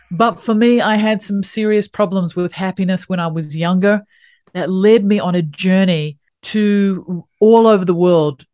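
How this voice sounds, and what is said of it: New Zealand accent. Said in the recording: “my unique little accent that I come from the bottom of the world, a little country called New Zealand”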